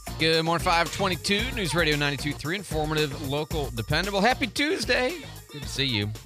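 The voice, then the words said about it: Voice cracks while speaking. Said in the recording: “my voice cracked right there”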